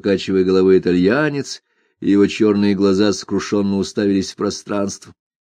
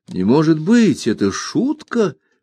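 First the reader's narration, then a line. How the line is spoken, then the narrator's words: Exclaimed. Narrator (Russian): воскликнул Ганс Кастерп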